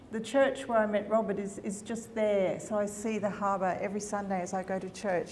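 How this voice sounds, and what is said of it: Australian accent, Sydney twang. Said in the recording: “my twang is from Sydney”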